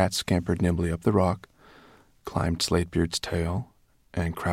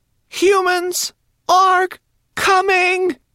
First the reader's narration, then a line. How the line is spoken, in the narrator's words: she cried